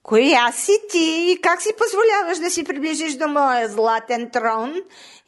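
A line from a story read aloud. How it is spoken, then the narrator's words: Shouting. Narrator (Bulgarian): извикала пастървка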